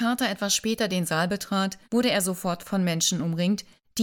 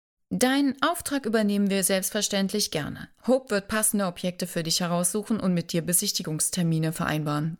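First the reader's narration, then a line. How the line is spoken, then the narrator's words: Plain. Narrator (German): sagte Joanna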